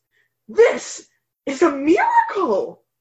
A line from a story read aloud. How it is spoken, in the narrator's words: the town soothsayer exclaimed